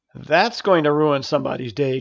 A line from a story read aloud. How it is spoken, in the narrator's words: chuckled a familiar voice